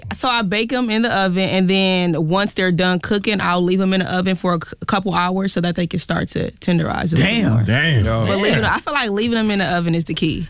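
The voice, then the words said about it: Milwaukee Wisconsin accent. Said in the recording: “I did hear something just now. You said a couple hours. Where is the accent from? ... I'm from Milwaukee, Wisconsin.”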